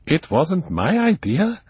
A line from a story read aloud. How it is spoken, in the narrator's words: he said brightly